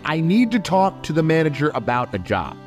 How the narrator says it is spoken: Billy raised his voice and said

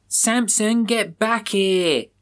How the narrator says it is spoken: Billy yells

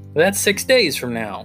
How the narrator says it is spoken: he said in a jubilant voice

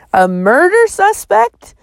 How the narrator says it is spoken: said, her voice rising

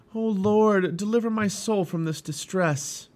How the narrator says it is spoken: Christian cried out

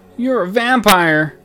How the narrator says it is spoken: I yelled

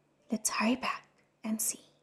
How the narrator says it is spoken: Shilin whispered

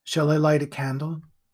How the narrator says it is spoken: said the voice

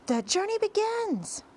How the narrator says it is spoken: shouted the centipede

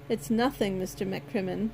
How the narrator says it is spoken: I replied

